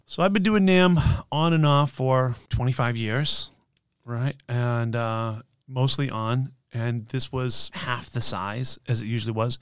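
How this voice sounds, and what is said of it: Hoarse voice. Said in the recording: “apologize right now, first off, of my voice ... So if I'm a little hoarse”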